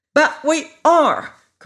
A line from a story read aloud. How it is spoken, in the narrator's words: cried Ginger, stamping her foot impatiently